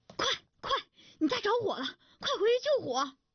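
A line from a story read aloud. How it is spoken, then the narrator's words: Breathless neighbor. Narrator (Chinese): 一位邻居气喘吁吁地跑来对他说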